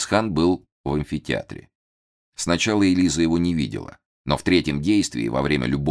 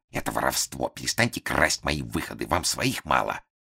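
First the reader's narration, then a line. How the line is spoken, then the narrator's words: Hissed. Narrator (Russian): Лисицкая прошипела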